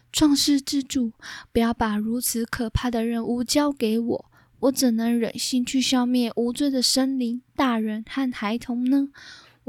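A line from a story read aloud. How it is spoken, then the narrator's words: Crying, pleading. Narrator (Chinese): 死神一听就哭了，他央求说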